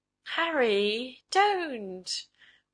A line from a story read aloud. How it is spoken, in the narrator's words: warned Bertha, laughing